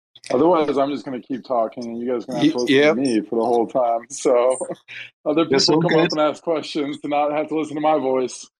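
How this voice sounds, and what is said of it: Good radio voice. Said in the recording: “you got a good radio voice”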